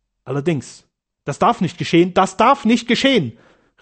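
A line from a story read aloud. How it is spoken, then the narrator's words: Terrified cry. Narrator (German): rief sie in höchster, in entsetzlichster Angst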